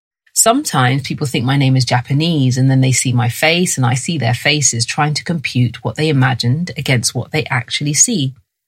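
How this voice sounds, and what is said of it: London English accent. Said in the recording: “I was raised in London and this is my accent”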